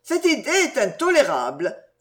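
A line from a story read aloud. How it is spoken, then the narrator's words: Finally exclaims. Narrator (French): s'écria enfin Mademoiselle Denise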